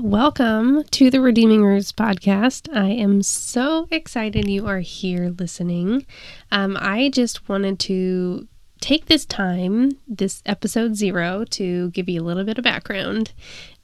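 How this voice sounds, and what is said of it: Slightly congested, stuffy voice. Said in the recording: “I have a little bit of a cold ... I just have a little bit of some sinus pressure.”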